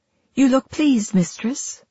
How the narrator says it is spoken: the servant said, anxiously

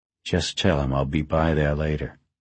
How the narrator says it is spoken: he said quietly

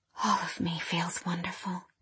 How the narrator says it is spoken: I whispered

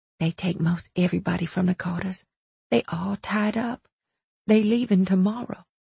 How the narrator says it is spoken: She whispered

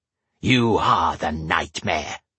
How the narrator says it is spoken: the woman growled

